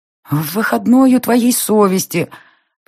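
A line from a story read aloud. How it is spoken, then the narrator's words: Moaning. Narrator (Russian): Простонала я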